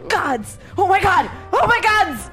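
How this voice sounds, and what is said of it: Screaming excitedly. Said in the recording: “screaming”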